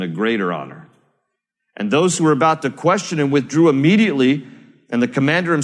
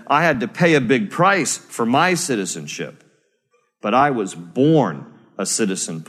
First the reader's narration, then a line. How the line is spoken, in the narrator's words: Paul replied